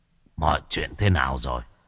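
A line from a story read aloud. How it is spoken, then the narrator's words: Hoarse. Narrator (Vietnamese): Sát tâm cất giọng khàn khàn nói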